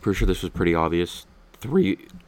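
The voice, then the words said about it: Voice cracks mid-sentence. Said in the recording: “Nice voice crack. ... my voice is cracked”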